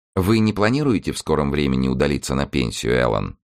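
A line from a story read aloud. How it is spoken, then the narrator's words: Sweet-toned question. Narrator (Russian): вопрос она милым тоном задала ему в ответ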